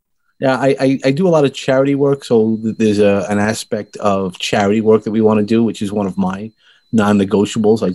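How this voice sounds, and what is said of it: Brooklyn accent. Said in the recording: “as you hear, I'm from originally from the land of Brooklyn ... my little Brooklyn accent”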